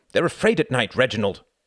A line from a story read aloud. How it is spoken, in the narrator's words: snapped Wendy